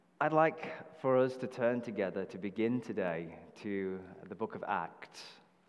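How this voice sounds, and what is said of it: British accent. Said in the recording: “why is he speaking with a British accent?”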